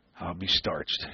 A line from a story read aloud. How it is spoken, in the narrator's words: he said softly